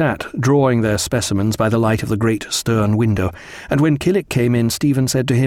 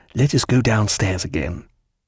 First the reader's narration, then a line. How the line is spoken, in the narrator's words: he murmured